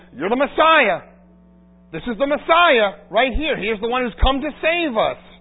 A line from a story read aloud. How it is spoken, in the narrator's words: the children shout, saying